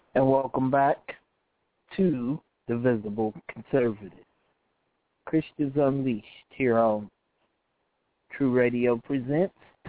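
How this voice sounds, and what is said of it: Strained voice from illness. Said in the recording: “I'm losing my voice, getting sick”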